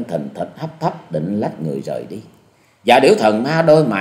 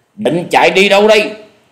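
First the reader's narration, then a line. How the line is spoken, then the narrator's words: Shout. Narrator (Vietnamese): tiếng quát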